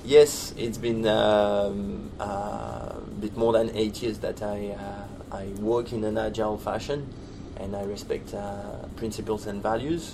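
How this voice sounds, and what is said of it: French-accented English. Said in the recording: “a bit of an accent there ... It's a bit of a German accent, isn't it? ... I was going off South African. ... South African? Nah. None of that is much more French.”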